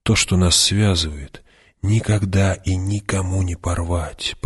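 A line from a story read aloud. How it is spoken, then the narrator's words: Whisper. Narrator (Russian): прошептал он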